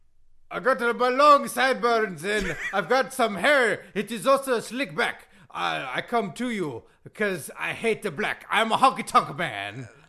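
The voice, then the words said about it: Imitates another person's voice, singing. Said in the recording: “Do you do a Honky Tonk Man impression? ... Can you do some singing?”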